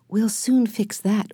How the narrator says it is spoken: whispered Jesse with a smile

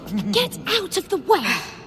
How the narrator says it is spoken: snapped Ron

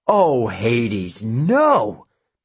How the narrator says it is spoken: Aphrodite growled

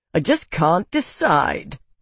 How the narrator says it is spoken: Bitan yelled, his voice jeering

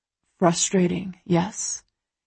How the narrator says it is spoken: He murmurs against my throat

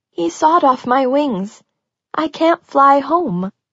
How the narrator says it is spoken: the voice whimpered

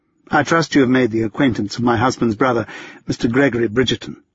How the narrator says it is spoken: Kate continued, her tone considerably less dry

